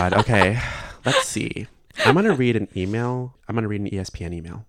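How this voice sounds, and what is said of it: Usual voice. Nothing is said of it.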